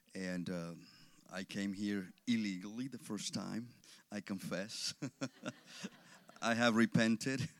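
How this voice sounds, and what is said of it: Mexican Spanish-accented English. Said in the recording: “I excuse my accent. I was born in Mexico. I grew up in Mexico until I was 14 years old.”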